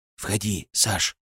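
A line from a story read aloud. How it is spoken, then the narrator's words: Whisper. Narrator (Russian): шепот Севы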